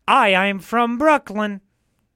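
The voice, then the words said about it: Put-on Brooklyn accent. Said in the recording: “can you do some impressions of other accents? ... give me an accent to do an impression of. ... Brooklyn.”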